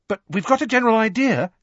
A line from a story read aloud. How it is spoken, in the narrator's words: she added hastily